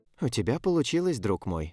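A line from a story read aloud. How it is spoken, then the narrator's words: Quiet. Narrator (Russian): тихо сказал Эл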